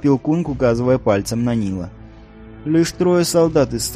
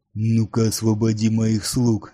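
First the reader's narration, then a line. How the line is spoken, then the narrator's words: Growled in foreign tongue. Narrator (Russian): зарычал он по-урнгурски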